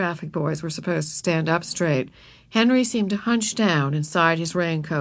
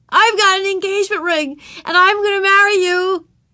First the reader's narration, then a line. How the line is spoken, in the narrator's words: yelled Ramona after Henry